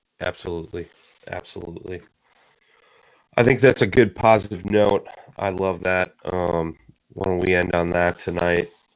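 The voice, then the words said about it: Strained voice, sounds sick. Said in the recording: “My voice isn't what it normally is. I'm struggling here. I've been battling a cold”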